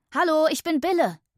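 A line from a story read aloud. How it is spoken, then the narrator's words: Joyful call. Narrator (German): rief freudig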